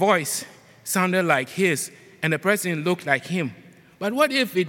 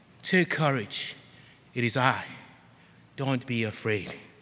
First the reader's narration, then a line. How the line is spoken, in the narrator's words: said to them immediately, and I assume calmly